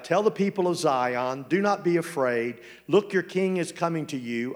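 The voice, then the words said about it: Speaker's own noticeable accent. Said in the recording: “people tend to misunderstand my accent sometimes”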